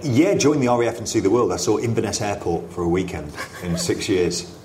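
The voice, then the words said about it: Posh-sounding English accent. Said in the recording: “I have a snobby accent”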